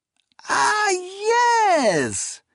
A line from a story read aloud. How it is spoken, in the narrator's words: exclaimed